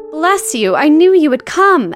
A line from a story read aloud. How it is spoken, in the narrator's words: exclaimed Mrs